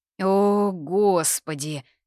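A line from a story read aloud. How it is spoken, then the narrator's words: Hissed. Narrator (Russian): шипение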